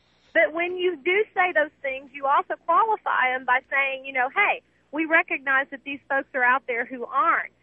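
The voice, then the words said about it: Southern US accent. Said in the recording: “there's those of us with accents down here ... Southern ... I can't stand listening to your accent anymore”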